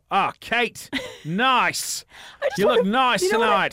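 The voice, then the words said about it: Put-on Australian accent. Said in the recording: “Australian guys ... they got that accent”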